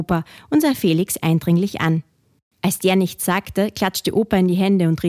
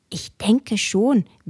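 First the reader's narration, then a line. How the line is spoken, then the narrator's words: Whispered reply. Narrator (German): wisperte zurück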